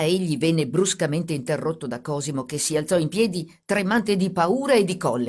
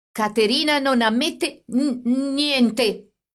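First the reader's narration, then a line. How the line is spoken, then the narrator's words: Stammering. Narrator (Italian): egli disse balbettando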